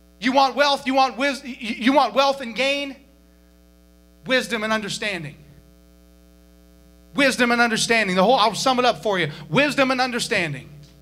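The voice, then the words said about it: Yelling, loud preaching voice. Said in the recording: “Sorry for yelling. If I yell, I'm not yelling”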